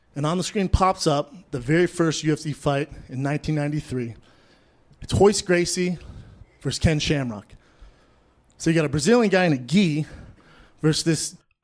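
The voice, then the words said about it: Out of breath, heavy breathing. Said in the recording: “out of breath he is ... Why is he so out of breath? ... Why is he breathing so heavily into the microphone? ... But why is he breathing so heavily?”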